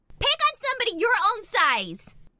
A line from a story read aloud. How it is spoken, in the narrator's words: Chrissy would yell